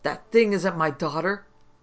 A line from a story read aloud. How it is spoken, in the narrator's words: Gird, from his seat across the room, screamed hoarsely